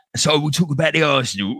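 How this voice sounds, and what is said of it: Put-on Cockney accent. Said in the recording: “I can talk like a Cockney. ... I can talk like that.”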